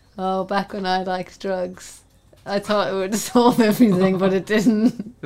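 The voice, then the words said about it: Mocking impression of co-host. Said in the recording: “Do an impression of me talking about my journey.”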